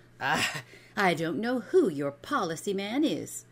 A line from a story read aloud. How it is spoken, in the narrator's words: she said sharply